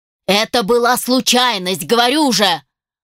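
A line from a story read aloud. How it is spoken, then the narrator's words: Shout. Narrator (Russian): выкрикнул Дастин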